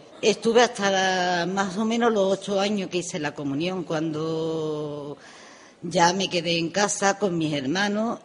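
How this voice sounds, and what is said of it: Andalusian Spanish accent. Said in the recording (Spanish): “tu acento ... las personas que me estén escuchando saben perfectamente que soy de Andalucía”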